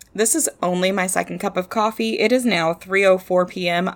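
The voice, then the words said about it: Voice with vocal fry. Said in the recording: “served hot to try to get rid of some of this vocal fry.”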